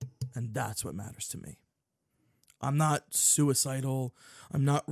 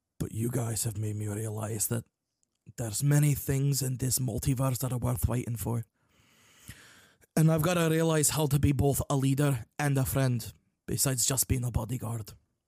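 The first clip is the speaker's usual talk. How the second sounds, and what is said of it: Character voice shifting into accent. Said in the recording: “he slowly transitions back into the accent.”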